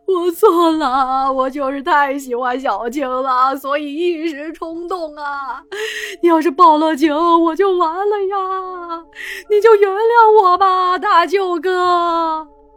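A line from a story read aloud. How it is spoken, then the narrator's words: Sobbing plea. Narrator (Chinese): 痛哭流涕的对大志说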